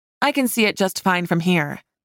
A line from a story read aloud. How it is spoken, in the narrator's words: I insisted, trying to keep my tone level